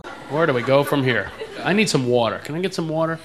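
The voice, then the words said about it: East Coast American accent. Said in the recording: “I'm from back east. That's why I talk like that. ... People make fun of my accent all the time.”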